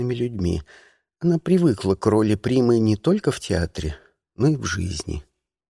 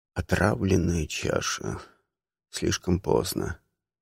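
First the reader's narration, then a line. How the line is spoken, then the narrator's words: Shocked mutter, king. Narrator (Russian): Король потрясенно пробормотал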